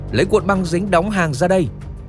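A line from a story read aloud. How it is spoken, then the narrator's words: Shouting. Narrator (Vietnamese): Machine tiếp tục hét lên với Patrick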